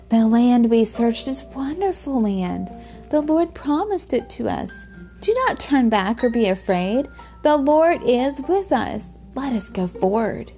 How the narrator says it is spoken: They pleaded with the people

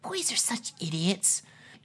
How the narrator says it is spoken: Fora muttered

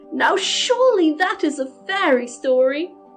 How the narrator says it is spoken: cried Mary

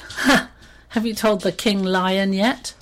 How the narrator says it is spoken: The hyena in between laughs he said

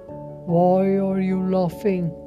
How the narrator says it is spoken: The lion roared

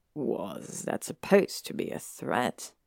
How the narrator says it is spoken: He murmured, amused

